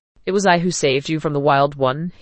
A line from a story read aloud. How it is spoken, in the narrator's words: he chuckled